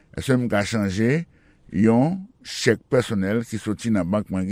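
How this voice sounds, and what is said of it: Usual voice. Nothing is said of it.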